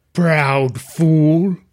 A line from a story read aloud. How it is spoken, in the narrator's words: rumbled